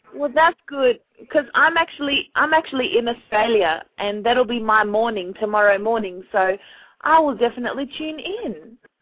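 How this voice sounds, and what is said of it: Noticeable accent. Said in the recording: “I love your accent, by the way. Your accent is the ball. ... You got the accent.”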